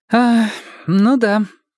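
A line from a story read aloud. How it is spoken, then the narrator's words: Young man sighing. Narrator (Russian): вздохнул юноша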